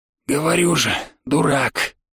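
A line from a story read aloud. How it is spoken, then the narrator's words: Sighing old man. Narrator (Russian): вздохнул дед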